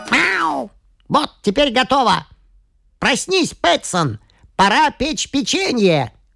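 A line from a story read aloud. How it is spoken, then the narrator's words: Loud kitten's shout. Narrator (Russian): Громко крикнул котенок, потому что хозяин задремал на диване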